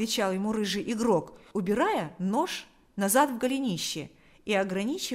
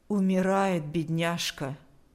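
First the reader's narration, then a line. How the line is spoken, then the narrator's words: Even, flat voice. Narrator (Russian): сказала она ровным голосом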